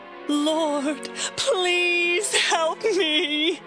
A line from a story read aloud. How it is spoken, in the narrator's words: begged